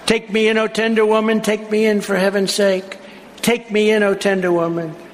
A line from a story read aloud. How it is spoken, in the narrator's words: sighed the vicious snake